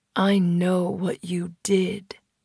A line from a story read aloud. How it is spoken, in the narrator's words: drawled, voice low, not at all sounding like he was asking a question